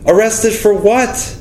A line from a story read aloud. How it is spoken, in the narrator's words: I cried, shuddering